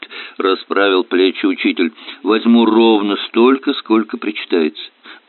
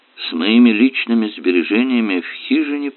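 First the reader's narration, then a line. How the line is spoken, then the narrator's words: Muttered. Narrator (Russian): пробормотал Ван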